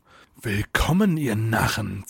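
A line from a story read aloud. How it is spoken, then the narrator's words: Icy hiss. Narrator (German): zischte eisig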